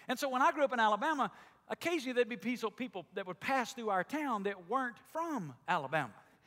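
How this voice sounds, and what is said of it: Southern Alabama drawl. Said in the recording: “I grew up in Alabama, and in Alabama everybody talks like I do or even worse than I do ... We all have this deep, long southern drawl. Some of you that are new to our church think I have it.”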